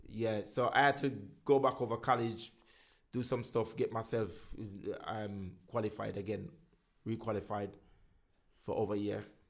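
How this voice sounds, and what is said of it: Jamaican accent, deliberately slowed speech. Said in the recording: “the accent, as you know, I'm still working on it. But what I do, I just slow it down so they can understand. But I love my native tongue”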